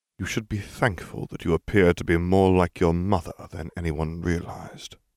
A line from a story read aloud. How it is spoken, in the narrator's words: Snape murmured